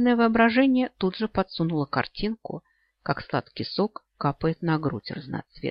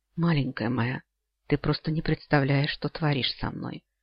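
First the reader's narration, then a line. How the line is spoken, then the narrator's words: Hoarse whisper. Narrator (Russian): хрипло прошептал я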